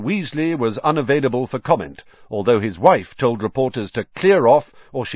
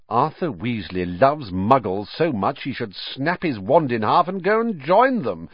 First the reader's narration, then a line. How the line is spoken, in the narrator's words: said Malfoy scornfully